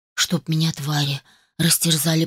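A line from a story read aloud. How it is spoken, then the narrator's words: Muttered. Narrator (Russian): пробормотал Дик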